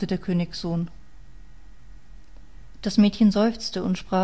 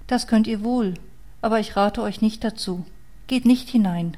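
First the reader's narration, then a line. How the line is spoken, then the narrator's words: Sad girl's voice. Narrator (German): sagte das Mädchen mit trauriger Stimme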